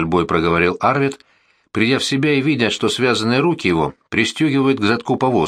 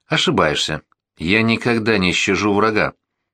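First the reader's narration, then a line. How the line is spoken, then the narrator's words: Dignified reply. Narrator (Russian): с достоинством ответил Горден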